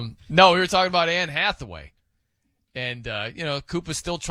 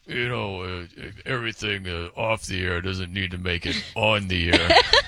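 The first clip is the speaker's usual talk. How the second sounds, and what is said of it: Imitates another person's voice. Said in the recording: “my Coop impression ... Yours was so good right there.”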